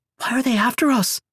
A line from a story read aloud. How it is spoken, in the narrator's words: Olivia asked anxiously